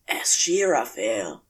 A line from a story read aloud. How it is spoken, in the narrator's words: whispered